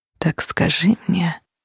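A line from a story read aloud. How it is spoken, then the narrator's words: Near whisper. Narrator (Russian): почти прошептал он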